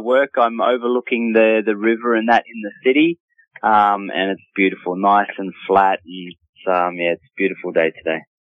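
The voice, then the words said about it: Australian accent. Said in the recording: “I love to hear that Australian accent.”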